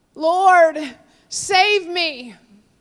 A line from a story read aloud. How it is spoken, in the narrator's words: He cried out